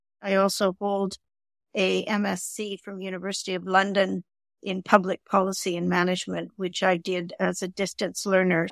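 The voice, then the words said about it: Canadian accent. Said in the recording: “I'm Canadian, as you can probably tell from my accent”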